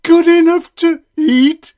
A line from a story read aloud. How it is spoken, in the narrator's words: shrieked the gingerbread man